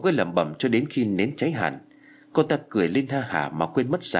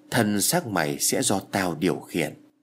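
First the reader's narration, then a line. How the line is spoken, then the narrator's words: Mutter. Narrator (Vietnamese): mồm lẩm bẩm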